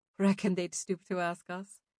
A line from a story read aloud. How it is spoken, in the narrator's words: Aelin replied with a chuckle